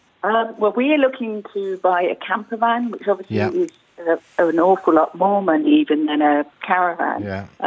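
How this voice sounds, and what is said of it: English accent. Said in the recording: “as you can tell by my accent, I'm English originally”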